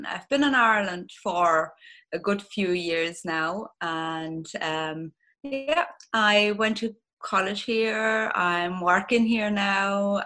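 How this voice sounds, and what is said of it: German accent. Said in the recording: “You're going to probably hear with my accent that I'm originally German.”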